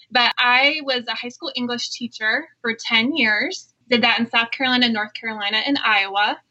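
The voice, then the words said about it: Slight South Carolina Southern accent. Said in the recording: “I'm actually from South Carolina, so you might distinguish my voice because I have a little bit of an accent.”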